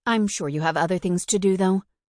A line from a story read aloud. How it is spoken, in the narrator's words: she added quickly